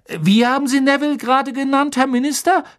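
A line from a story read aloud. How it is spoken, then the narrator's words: Excited question. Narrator (German): fragte er aufgeregt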